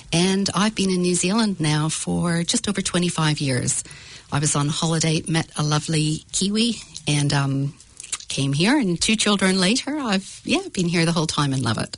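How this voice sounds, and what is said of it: Mixed Northern Irish-Canadian accent. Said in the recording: “I'm originally from Northern Ireland, did a bit of a stopover in Canada, which is where I've got this bit of a mixed accent.”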